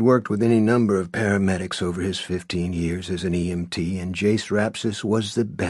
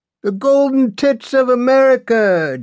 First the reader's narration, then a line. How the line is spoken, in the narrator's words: Jason Rapsis cried from the shotgun seat